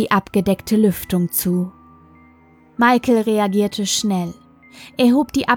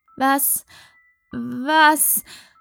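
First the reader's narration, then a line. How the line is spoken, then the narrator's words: Stammering. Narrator (German): stotterte Sarah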